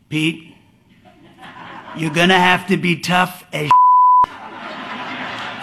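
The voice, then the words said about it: Impersonation of another man's voice. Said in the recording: “That's pretty good impersonation.”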